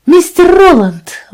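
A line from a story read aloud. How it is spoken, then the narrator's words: Exclaimed. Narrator (Russian): воскликнула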